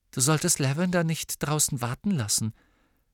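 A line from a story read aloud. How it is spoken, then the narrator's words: Said quietly. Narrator (German): sagte sie leise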